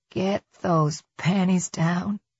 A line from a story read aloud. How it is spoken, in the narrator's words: she whispered